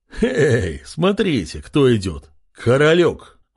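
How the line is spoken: Loud laughing pirate. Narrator (Russian): расхохотался один из пленных пиратов

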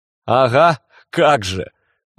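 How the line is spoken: Laughing. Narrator (Russian): рассмеялся Кертис

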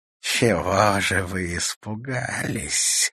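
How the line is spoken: Hoarse laugh. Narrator (Russian): хрипло рассмеялась

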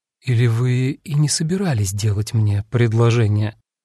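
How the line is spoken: Insinuating question. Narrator (Russian): вкрадчиво переспросила

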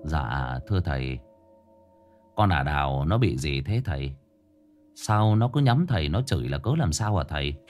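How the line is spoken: Quiet question. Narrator (Vietnamese): nhỏ giọng hỏi

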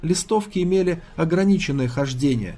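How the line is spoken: Plain. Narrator (Russian): сказала она

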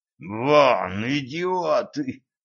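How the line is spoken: Hissed through teeth. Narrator (Russian): прошипел сквозь зубы

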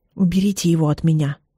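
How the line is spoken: Quiet, hoarse, convincing. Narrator (Russian): говорю тихо и хрипло, но, как мне кажется, убедительно

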